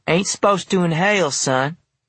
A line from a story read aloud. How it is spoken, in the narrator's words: Vernon cackled saying